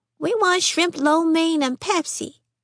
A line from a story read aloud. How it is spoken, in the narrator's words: Fern piped in